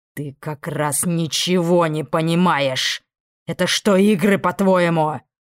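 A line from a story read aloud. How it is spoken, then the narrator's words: Growling. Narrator (Russian): Собеседник уже рычал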